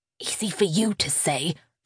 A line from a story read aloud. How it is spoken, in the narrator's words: hissed back